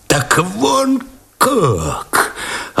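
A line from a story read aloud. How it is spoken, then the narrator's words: Sudden faltering voice. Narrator (Russian): Опадающим голосом вдруг произнес Овчинников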